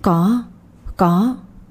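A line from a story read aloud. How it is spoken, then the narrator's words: Frightened stammering answer. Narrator (Vietnamese): Nguyệt thấy tên nào trong đó mặt cũng đều hung tợn nên trả lời lắp bắp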